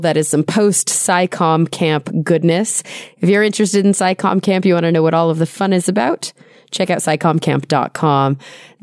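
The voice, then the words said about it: Voice lower than usual. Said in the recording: “My voice is still a little lower than usual.”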